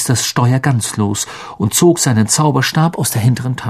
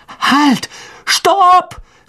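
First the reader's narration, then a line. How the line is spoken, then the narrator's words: Called out. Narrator (German): rief er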